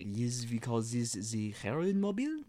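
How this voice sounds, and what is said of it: Put-on French accent. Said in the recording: “Is that your French accent?”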